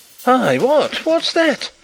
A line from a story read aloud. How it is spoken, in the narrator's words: exclaimed a voice from the other side of the hall